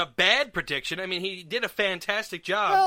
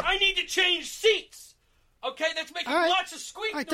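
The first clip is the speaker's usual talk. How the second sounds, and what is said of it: Loud, yelling voice. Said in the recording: “Don't yell. ... You're yelling.”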